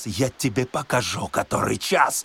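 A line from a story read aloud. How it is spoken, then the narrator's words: Hateful hiss. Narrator (Russian): шипел Корейка, вкладывавший в свои удары вековую ненависть богача к грабителю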